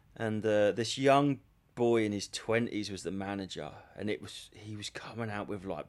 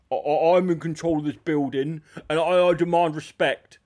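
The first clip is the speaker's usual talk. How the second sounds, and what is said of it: Imitates another person's voice. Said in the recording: “You're doing his voice ... Doing a voice”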